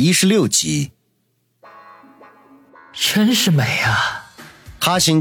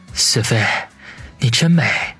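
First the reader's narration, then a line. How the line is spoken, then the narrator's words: Soft sigh. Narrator (Chinese): 他……轻叹一声说道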